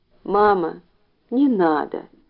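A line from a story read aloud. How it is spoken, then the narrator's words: Whimpering child. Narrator (Russian): прохныкал Ленька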